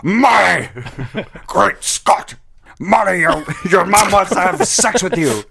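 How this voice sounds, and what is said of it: Doc Brown impression. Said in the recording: “give me your Doc Brown impression”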